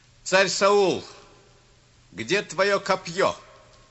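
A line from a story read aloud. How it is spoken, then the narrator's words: Shouting from afar. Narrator (Russian): Давид закричал издали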